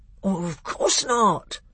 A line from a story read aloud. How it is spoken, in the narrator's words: said the bear in a very shocked voice